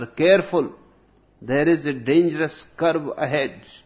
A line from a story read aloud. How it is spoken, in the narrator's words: Two drunkards, one shouts to the other